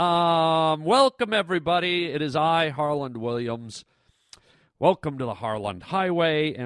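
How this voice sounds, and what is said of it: Usual voice. Nothing is said of it.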